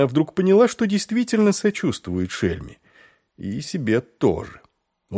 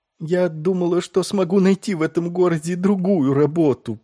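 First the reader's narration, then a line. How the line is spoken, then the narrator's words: Moaning. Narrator (Russian): простонала шельма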